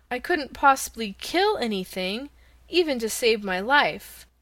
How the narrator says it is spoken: cried Dorothy

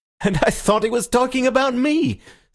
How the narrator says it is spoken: said Syme with his rather reckless laughter

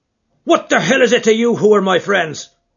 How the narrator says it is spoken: roared McMurdo in a voice which brought every head in the carriage round to witness the altercation

